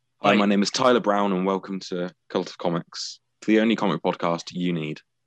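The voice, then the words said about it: British accent. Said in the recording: “you're still doing it in a British accent”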